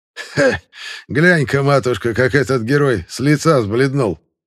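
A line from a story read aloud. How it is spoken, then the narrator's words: Gloating chuckle. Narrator (Russian): Злорадно хохотнул проф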